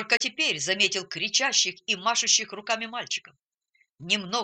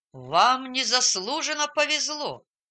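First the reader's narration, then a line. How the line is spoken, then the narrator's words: Grumbling. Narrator (Russian): пробурчал он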